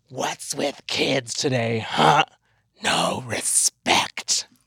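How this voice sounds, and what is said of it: Freddy Krueger character voice impression. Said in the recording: “That was a terrible Freddy Krueger impersonation ... No, it was good. ... Horrible.”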